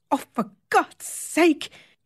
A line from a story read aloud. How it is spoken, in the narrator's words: he exclaims irritably